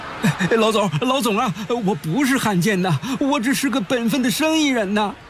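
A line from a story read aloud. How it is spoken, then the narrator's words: Hurried pleading. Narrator (Chinese): 老板赶紧哀求道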